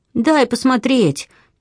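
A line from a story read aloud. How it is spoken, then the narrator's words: Pleading near tears. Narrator (Russian): чуть не плача взмолился Дэвид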